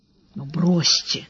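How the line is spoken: Whisper. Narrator (Russian): так же шепотом ответил Сварог

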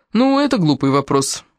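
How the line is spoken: Irritated. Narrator (Russian): раздраженно сказал Джеймс

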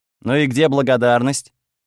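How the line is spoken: Grumbling reply. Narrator (Russian): проворчала в ответ

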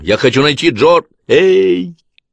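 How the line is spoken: Shout. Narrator (Russian): крикнул Дэн

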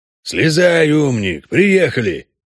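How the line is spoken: Grumbled. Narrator (Russian): пробурчал Трамп

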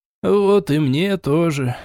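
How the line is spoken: Sigh. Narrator (Russian): вздохнул

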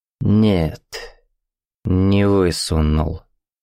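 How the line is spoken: Slow speech. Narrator (Russian): медленно сказал

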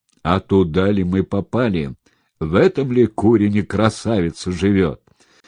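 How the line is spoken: Thunderous booming question. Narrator (Russian): громоподобным голосом спросил

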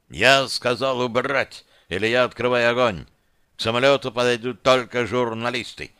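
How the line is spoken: Thunderous bark. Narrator (Russian): рявкнул Мавлади так, что, казалось, дрогнуло стекло кабины

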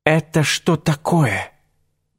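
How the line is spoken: Hunter breathing out. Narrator (Russian): выдохнул охотник

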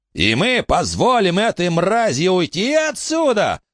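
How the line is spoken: Distant shout. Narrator (Russian): закричал кто-то в другом конце приемной

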